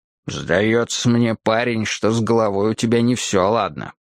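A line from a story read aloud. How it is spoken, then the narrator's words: Grumbling. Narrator (Russian): проворчал он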